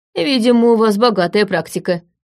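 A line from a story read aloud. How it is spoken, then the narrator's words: Smirking grunt. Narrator (Russian): хмыкнул он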